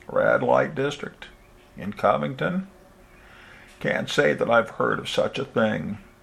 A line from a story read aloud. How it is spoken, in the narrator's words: croaked